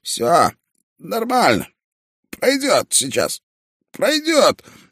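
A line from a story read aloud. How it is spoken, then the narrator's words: Wheezing, hoarse. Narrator (Russian): сквозь хрипы сказал он мне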